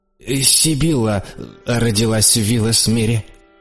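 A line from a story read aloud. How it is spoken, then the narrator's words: Strained, choked voice. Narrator (Russian): наконец сказал граф каким-то сдавленным голосом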